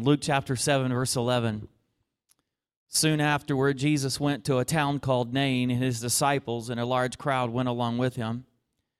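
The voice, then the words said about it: Southern American accent. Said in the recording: “I'm a Southern preacher ... Can you understand with my accent this morning?”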